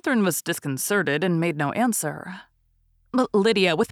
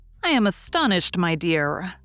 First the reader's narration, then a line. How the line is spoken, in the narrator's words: said Mrs